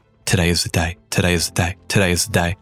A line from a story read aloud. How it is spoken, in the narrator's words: repeating under his breath